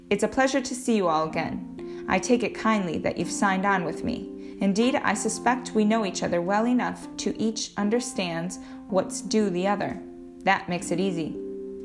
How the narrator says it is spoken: he said in a clear, firm voice

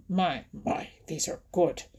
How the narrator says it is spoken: he mumbled in his deep, grumbly, rumbly voice

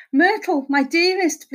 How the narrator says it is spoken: pleaded Horace

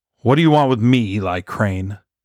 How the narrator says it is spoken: Jim Murray nearly spat the words as he spoke

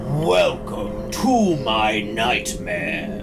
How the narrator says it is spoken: he bellows

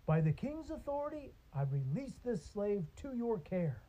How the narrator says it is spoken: he exclaimed

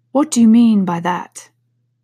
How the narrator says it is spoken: said the caterpillar sternly

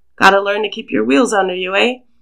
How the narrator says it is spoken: He chuckles when he says it, but Niall can hear the tension hiding in his voice

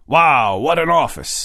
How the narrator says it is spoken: Manny exclaimed

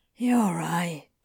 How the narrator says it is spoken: Crowley sighed

